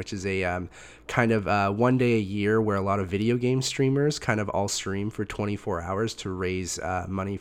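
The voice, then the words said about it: Voice sounds sick. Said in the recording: “as you can hear in my voice, I feel like every time we've recorded from episode 7 onward, I've been sick”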